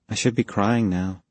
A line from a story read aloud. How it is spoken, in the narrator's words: she said quietly